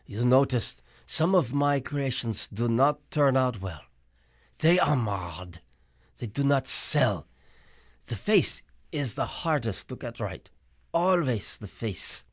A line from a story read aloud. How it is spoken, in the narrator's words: Auntie M said sadly